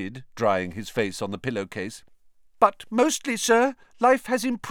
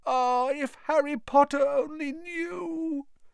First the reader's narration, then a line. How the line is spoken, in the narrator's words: Dobby groaned, more tears dripping onto his ragged pillowcase